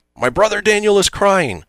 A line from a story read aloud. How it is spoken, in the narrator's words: Door yells